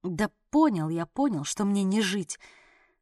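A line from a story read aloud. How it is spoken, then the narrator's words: Muttering. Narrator (Russian): пробормотал Орлик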